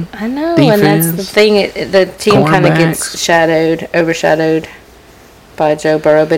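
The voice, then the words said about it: Slightly raspy voice. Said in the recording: “my voice is kind of raspy a little bit.”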